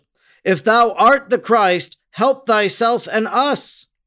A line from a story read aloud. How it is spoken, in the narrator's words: Gesimus cried out